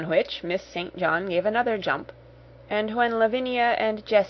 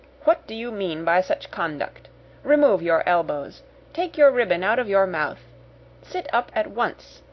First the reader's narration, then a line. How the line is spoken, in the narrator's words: exclaimed severely